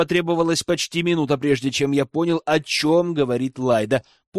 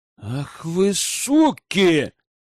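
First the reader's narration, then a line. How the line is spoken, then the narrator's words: Breathless realization. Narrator (Russian): выдохнул я, когда знание, наконец, коснулось моего разума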